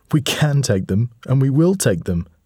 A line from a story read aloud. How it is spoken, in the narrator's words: said Darius, laughing